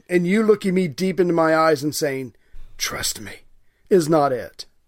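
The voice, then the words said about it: Batman impression, grave dramatic voice. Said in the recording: “thanks for the Batman impersonation. That was good. ... I was just trying to do emotion and gravitas”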